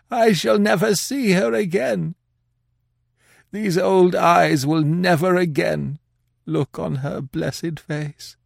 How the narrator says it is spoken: The old man sobbed out

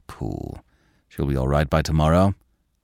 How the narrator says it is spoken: calmly

